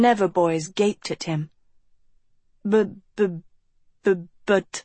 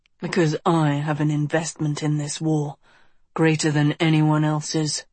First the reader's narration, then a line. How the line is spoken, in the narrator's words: Auric said coldly